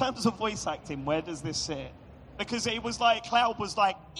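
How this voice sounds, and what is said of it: Usual voice. Nothing is said of it.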